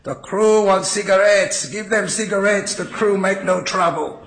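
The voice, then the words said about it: Heavy Eastern European accent, bellowing. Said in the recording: “in a very heavy Eastern European accent, bellowing through the courtroom”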